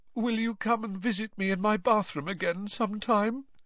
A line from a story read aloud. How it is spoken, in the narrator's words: Moaning Myrtle asked mournfully